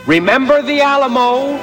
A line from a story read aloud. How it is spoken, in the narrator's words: at the top of his voice